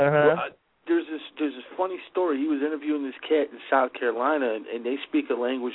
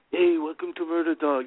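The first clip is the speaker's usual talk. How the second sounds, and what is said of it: Imitation of a thick accent. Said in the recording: “you know his accent ... You know how he talks ... Black Dog has this thick accent”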